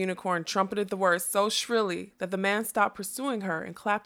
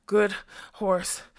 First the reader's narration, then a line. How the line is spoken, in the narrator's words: the fat man panted